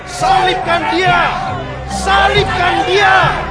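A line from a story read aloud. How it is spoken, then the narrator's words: Crowd shouting. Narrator (Indonesian): berteriaklah mereka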